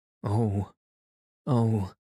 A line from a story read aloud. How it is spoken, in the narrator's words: gasped Emily